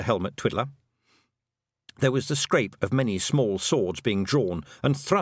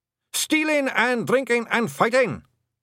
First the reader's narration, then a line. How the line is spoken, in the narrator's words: shouted the blue men cheerfully